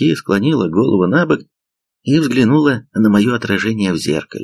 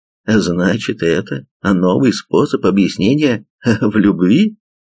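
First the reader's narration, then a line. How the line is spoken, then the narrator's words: Laughing. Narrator (Russian): рассмеялся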